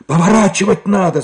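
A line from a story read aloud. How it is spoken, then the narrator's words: Shouting over wind. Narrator (Russian): закричал шофер, стараясь пересилить шум ветра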